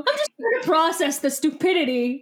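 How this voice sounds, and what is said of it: Imitates another person's voice. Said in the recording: “doing an impression of you processing my stupidity ... I was impersonating you being a bully ... it was a good impression. It was not inaccurate.”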